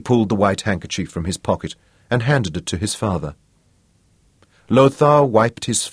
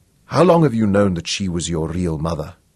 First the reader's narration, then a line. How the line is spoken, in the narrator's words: asked, and his voice was firm and sure